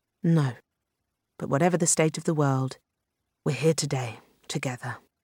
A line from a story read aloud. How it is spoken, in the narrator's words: she said quietly